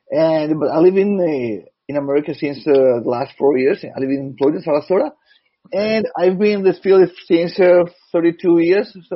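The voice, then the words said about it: Rough, hoarse voice. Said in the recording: “Sorry for my voice, it's pretty rough today.”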